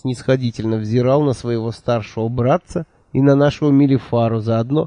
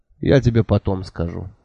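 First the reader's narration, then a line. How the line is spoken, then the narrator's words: Calm reply. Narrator (Russian): спокойно ответил принц Джифа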